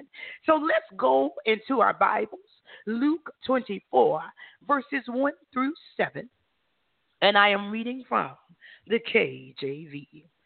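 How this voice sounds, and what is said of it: Raspy, hoarse voice. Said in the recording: “recovering from laryngitis over the past few days, so please forgive me if my voice sounds raspy”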